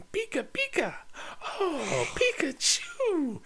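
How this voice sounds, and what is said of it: Imitates a man doing Pikachu. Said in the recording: “did a really good impression. I think you should try it.”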